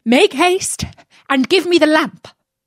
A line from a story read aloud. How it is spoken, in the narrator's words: The magician cried out